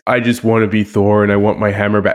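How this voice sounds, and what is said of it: Chris Hemsworth impression as Thor. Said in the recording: “great voice, by the way. Great Chris Hemsworth impression”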